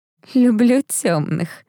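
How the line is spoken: Hoarse laugh. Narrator (Russian): хрипло рассмеялась Этель

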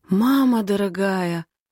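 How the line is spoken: Hoarse. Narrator (Russian): хриплю

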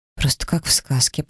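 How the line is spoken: Muttered. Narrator (Russian): пробормотала я

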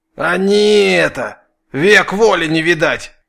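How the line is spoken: Angry hiss in pain. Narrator (Russian): Злобно прошипел Фикса, баюкая ноющую руку

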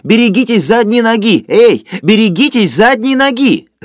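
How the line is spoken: Loud pained shouting. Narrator (Russian): скорчившийся человек уже сидел и, по-прежнему держась за живот, громко кричал

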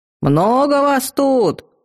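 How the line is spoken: Muffled yelling through glove. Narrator (Russian): завопил он, прикрывая нос кожаной рукавицей

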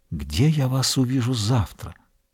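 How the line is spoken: Whispered. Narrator (Russian): Дюруа прошептал

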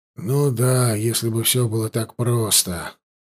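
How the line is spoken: Sighing. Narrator (Russian): вздохнул контрразведчик

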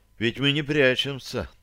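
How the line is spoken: Calm reminder. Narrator (Russian): спокойно напомнил он

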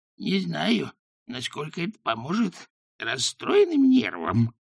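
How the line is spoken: Breathless wheeze. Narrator (Russian): задыхаясь, просипела она

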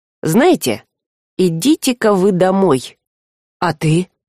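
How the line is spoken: Unexpectedly calm. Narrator (Russian): Однако Альк неожиданно спокойно сказал

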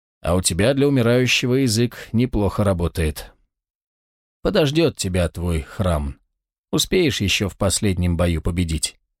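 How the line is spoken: Mocking grumble. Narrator (Russian): Волкодав самым кощунственным образом усмехнулся и проворчал

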